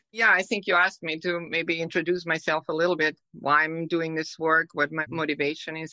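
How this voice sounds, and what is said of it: Slight Austrian accent. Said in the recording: “originally from Austria. And maybe people notice the hint of an accent.”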